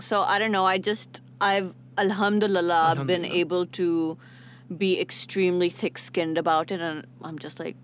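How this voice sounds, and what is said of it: American-sounding English accent. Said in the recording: “Saudi se kahan se accent yaar, matlab America ki thori tum ho ya UK ki thori ho ... British school to phir American accent kyun”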